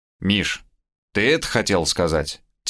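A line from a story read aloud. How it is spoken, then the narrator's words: Quiet question. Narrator (Russian): тихо спросил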